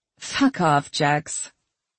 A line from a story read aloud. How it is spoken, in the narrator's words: She chuckled and said